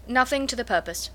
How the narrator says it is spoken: replied her brother

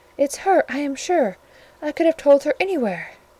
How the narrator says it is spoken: cried

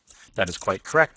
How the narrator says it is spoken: I answered

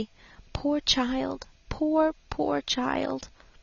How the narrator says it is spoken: whispered compassionately

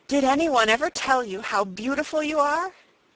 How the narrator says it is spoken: She cried

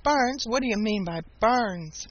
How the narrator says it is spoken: Old Mother Nature laughed

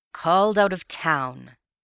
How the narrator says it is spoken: he grumbled

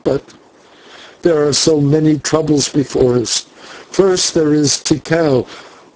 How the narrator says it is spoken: she answered with a sob

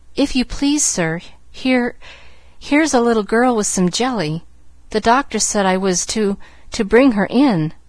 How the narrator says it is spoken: the maid was saying in a frightened voice

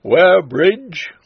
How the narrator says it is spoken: a voice cried

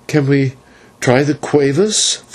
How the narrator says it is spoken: faltered Maya

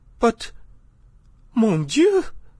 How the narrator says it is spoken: cried the Countess

